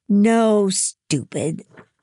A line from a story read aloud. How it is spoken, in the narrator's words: Louisa sneered